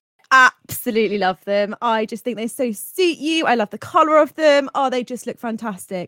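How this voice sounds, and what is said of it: Put-on British accent. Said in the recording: “I'm your British friend, by the way, because I can't do accents.”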